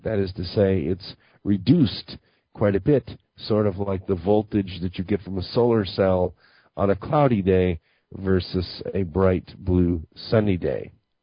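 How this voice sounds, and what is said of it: Slightly hoarse voice. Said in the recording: “my voice is a little bit hoarse today”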